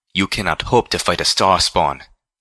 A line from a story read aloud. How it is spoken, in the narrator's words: Xanath gasped